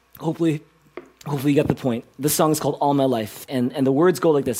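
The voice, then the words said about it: Hoarse, worn-out voice. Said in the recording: “my voice is kind of shot”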